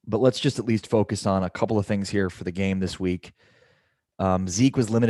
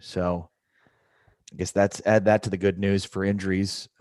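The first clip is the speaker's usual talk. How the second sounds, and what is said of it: Sarcastic tone. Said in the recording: “I'm being sarcastic”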